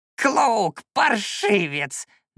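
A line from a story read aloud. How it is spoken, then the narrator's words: Loud creaky yell. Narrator (Russian): на весь лес заорал он скрипучим голосом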